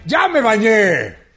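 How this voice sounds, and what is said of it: Shouting. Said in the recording (Spanish): “¿Y por qué gritas?”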